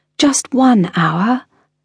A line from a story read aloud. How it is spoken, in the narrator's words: pleading